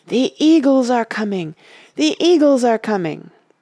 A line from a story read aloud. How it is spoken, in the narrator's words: he cried in a loud voice, ringing above the din